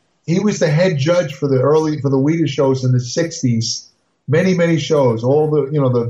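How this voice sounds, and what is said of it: Usual voice. Nothing is said of it.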